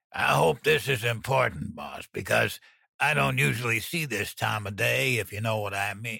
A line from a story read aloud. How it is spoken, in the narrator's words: He grumbled